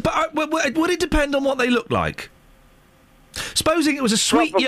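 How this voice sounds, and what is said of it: Usual voice. Nothing is said of it.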